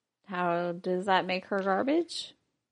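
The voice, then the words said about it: Sarcastic tone. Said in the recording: “I was being sarcastic”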